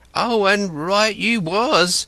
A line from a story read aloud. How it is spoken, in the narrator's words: cried